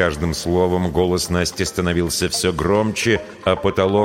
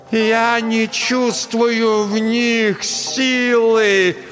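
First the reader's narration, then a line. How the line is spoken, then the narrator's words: Shouting toward the end. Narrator (Russian): Под конец фразы Настя снова закричала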